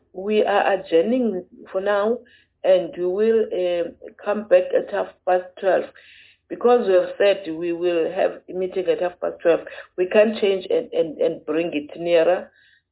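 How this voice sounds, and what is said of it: Hoarse voice. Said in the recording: “Please bear with me on my hoarse voice. My fever is worse today.”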